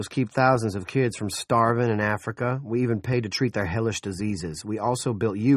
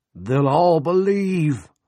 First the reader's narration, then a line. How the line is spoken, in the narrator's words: Coggins cried